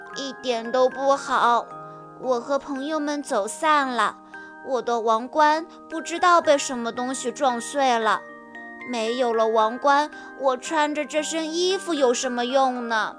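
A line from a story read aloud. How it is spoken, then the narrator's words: Plain. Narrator (Chinese): 波比说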